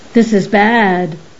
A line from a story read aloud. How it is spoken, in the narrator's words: Cupsador exclaimed severely